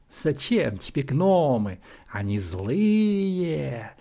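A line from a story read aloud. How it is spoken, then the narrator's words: Insinuating shadowy hiss. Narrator (Russian): вкрадчиво зашипела тень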